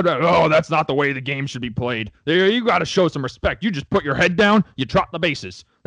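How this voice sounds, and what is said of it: Mocking old man voice. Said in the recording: “I don't have a good old man voice.”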